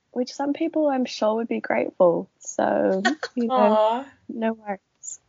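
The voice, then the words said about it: Hoarse, fading voice. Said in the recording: “Marima's a little bit under the weather ... I'm just losing my voice”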